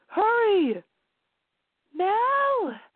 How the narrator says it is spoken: She yelled in sheer panic

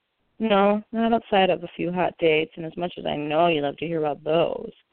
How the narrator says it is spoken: he said the sarcasm, and his voice was as thick as paste

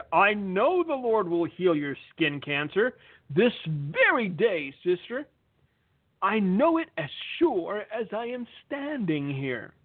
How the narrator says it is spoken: the faith healer thundered

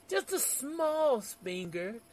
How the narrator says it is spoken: Subincal pleaded

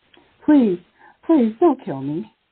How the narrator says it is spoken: the woman begged

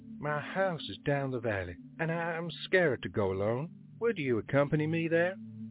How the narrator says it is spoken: She again said in her crystal clear voice

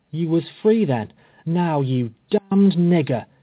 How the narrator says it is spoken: he exclaimed

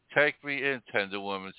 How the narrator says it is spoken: sighed the snake

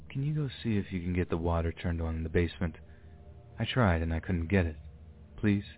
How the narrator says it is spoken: in a very soft voice, he said

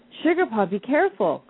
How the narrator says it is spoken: cried Bonnie Whiskers

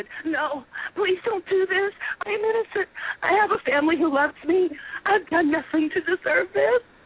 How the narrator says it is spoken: Panicking, pleaded

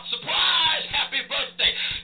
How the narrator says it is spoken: the crowd in there, led by Campolo, hollers out

